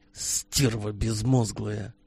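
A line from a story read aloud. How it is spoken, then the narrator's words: Soured whisper, captain. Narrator (Russian): прошептал капитан Кудрин, хорошее настроение которого сразу улетучилось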